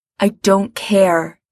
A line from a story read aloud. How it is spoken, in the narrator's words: Gerard says fiercely